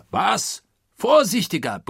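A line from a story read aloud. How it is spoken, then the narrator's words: Furious bellow. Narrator (German): brüllte nun Oberst Proctor, den dieses zufällig aufgefangene Wort in Harnisch brachte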